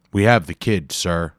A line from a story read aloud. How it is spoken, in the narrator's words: he said loudly